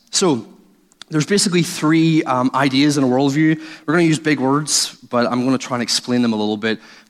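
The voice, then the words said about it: Irish accent. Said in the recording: “you've heard through the accent that Irish people”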